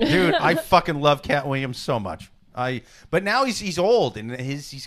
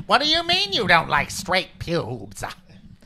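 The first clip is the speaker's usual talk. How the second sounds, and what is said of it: Imitates another person's voice. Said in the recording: “That's a great impression.”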